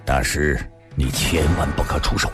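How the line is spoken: Deep low voice. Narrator (Chinese): 白小生沉声地说道

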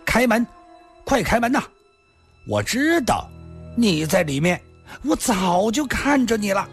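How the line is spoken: Loud, urgent. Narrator (Chinese): 一个人大声地说道

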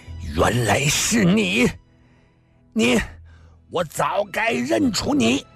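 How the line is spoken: Frenzied roar. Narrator (Chinese): 诸葛雷满头大汗如雨，脸已吐得变形，突然咬了咬牙……瞪着李寻欢狂吼地说道

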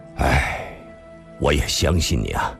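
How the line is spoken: Deep sigh. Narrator (Chinese): 李寻欢长长叹了口气

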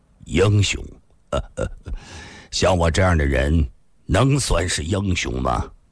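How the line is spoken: Dejected, wry laugh. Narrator (Chinese): 李寻欢黯然地笑了笑

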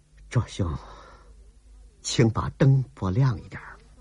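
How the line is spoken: Wry, soft, breathless. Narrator (Chinese): 郭彩玲苦笑了一下 轻声地喘着

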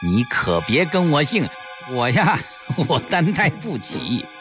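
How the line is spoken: Smug laugh. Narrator (Chinese): 严锦文得意的一笑

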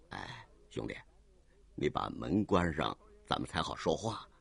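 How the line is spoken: Cold, low voice. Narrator (Chinese): 卓君明冷冷一笑，随即低声说

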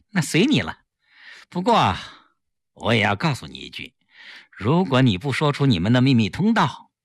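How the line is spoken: Still smiling. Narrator (Chinese): 顾青依然笑着

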